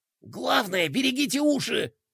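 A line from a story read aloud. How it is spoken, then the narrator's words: Whispered. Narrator (Russian): прошептал Бублик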